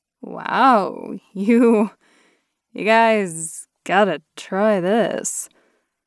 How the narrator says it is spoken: I slurred

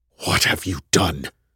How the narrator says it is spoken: My words were a sharp whisper

